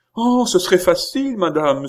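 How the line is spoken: Lively exclamation. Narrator (French): s'écria la plaideuse avec une vivacité

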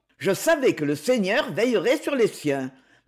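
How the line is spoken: Satisfied. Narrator (French): dit-il d'un ton satisfait

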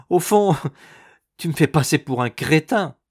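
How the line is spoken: Laughing. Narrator (French): dit-il en riant toujours

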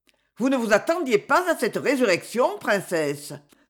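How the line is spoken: Biting, sharp tone. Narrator (French): dit-elle enfin d'un ton mordant

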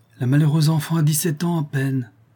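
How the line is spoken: Deeply moved exclaiming. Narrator (French): s'écria le comte profondément attendri

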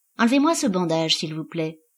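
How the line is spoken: Very calm. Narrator (French): dit-il très calmement

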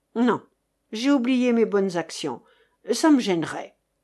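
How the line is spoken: Gloomy grumbling. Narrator (French): grogna chérie Bibi de plus en plus sombre

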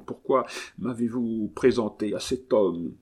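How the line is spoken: Stammered. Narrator (French): balbutia l'espion

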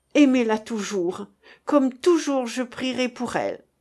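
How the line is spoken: Sobbing cry. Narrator (French): s'écria dans un dernier sanglot

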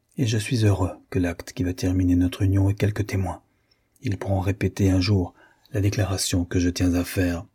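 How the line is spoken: Added in low voice. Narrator (French): ajouta, parlant à voix basse

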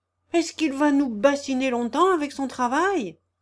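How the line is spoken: Shouting. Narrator (French): cria Mébotte

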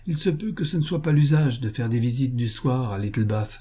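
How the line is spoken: Said to himself. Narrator (French): se dit-il

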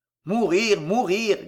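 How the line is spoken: Grumbling. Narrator (French): grommela Pardaillan

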